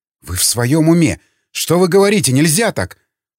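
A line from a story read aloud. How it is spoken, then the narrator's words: Horrified exclamation. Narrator (Russian): С ужасом в голосе воскликнула Раковски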